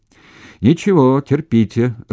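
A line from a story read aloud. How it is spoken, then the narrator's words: Laughing. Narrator (Russian): рассмеялся Шмаков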